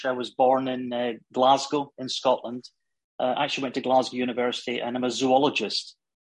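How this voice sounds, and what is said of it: Scottish accent. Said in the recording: “You can gather from my accent, I'm Scottish.”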